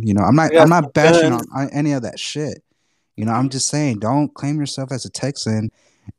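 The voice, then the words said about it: Texan accent. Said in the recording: “I got this Texan accent because I earned it.”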